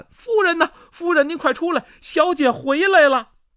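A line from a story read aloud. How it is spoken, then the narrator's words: Nurse shouting while running. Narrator (Chinese): 这奶妈一路小跑就朝里边喊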